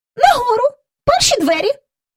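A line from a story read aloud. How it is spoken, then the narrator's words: Indignant squeaky grumble. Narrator (Ukrainian): буркнула міс Персімон, обурено примовляючи тонким пискливим голосом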